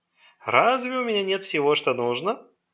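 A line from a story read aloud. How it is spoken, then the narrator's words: Mocking question. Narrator (Russian): насмешливо переспросил председатель землячества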